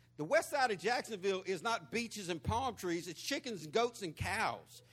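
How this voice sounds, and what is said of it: Country Southern accent. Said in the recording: “You sure is country. ... my accent ... where'd you get your accent from? Florida, the west side of Jacksonville.”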